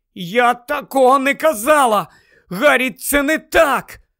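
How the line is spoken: Desperate exclamation. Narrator (Ukrainian): Герміона вигукнула буквально в розпачі

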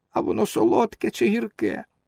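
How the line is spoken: Whiny question. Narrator (Ukrainian): скривився трохи і спитав плаксивим голосом

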